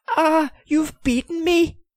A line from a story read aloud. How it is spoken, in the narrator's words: he pleaded